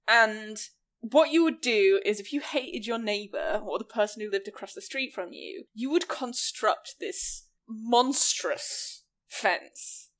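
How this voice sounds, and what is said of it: Regional English accent, soft T's. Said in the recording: “that's my accent ... I pronounce very soft T's ... The region of England that I'm from”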